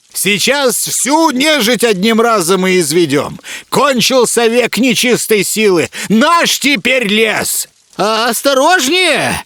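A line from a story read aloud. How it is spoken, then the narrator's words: Frantic yelling. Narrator (Russian): Суматошно завопил Игоня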